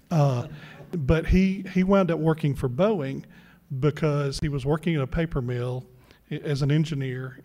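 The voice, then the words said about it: Mississippi Southern accent. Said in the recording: “we're both from Mississippi. John's lost his accent. I haven't.”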